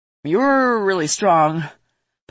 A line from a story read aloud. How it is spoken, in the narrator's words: Paul said to Ver and sighed